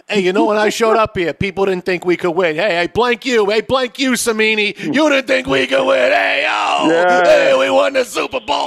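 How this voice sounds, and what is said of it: Put-on New York/Jersey accent. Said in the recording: “his Hall of Fame speech will be with a New York accent... it should be something of a Jersey accent. It should be like Jersey Shore.”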